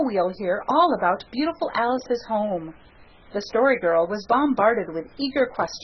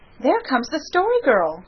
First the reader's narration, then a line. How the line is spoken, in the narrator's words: cried Felicity eagerly